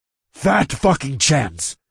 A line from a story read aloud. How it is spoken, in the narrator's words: I snarled